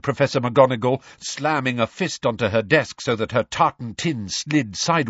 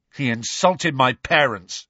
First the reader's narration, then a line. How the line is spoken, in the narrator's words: snarled George